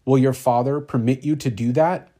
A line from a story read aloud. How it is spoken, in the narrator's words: exclaimed